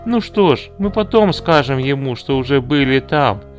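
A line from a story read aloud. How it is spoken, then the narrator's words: Plain. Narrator (Russian): сказал Поль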